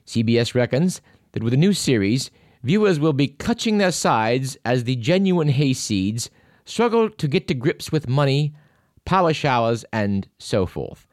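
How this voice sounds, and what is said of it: Imperfect put-on British accent. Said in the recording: “I wish I could do a better British accent”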